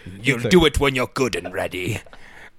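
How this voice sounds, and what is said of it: Put-on medieval English villain accent. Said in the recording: “That was a medieval English accent. ... It was kind of like the villain.”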